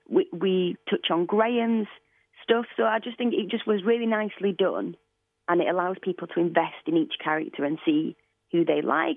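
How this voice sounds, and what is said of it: Northern English Leeds accent. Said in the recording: “I'm obsessed with her accent. ... It is great. She's from Leeds. ... It's a great old Northern England.”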